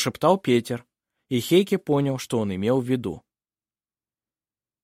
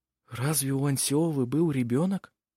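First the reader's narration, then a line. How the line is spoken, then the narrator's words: Whisper. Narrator (Russian): прошептал Петер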